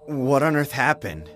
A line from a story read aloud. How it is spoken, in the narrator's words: I asked in a trembling voice